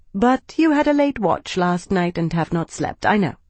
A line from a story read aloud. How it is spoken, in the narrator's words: she said, her tone turning businesslike